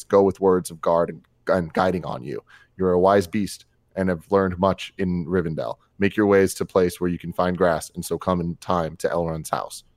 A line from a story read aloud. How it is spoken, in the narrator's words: Gandalf spoke in a low voice